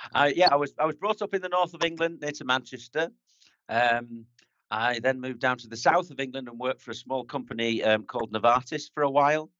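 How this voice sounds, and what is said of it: Northern English accent, toned down. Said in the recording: “My accent's from north of England, so you could probably hear that. But I try and tone it down”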